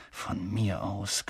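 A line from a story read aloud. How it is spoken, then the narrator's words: Growled. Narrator (German): knurrte er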